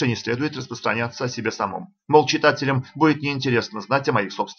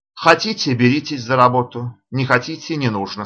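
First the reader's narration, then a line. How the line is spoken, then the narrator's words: Irritated voice. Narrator (Russian): сказал раздраженно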